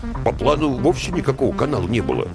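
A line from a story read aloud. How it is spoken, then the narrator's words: Muttered from behind. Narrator (Russian): буркнули из-за спины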